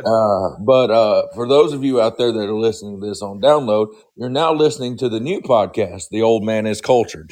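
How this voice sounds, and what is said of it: Hoarse, nearly lost voice. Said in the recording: “I've about lost my voice. ... Oh, I hear that.”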